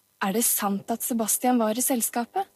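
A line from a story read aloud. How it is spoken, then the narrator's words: Plain question. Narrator (Norwegian): spurte Hansen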